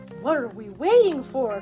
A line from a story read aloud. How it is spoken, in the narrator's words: cried the lion